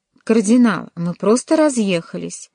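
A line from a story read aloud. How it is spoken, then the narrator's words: Cheerful. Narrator (Russian): весело ответил Джованни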